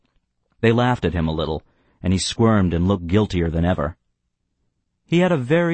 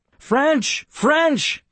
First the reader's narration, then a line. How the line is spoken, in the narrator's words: I exclaimed